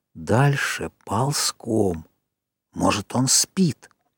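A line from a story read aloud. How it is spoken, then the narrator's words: Whisper. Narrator (Russian): Джек заговорил шепотом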